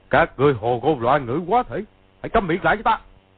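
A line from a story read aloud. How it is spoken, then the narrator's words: Flustered angry shout. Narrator (Vietnamese): Công Tôn Chỉ vốn đang bối rối, càng rối trí, quát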